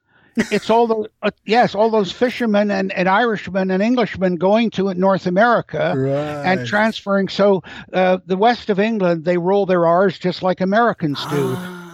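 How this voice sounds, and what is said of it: American accent. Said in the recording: “your accent is American”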